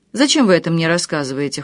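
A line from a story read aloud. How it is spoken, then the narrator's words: Cold, hiding shock. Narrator (Russian): холодно поинтересовалась Наташа, изо всех сил стараясь скрыть потрясение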